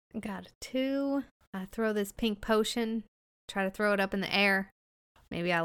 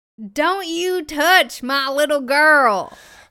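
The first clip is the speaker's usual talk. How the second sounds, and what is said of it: Screaming. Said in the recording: “I'm screaming that as I'm trying to throw this thing”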